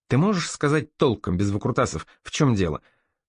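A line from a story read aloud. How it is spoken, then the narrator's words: Irritated question. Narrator (Russian): раздраженно спросил Норман у дружка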